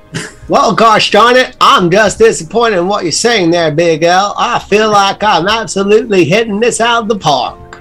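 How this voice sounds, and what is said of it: Put-on accent. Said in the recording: “I hate your accent.”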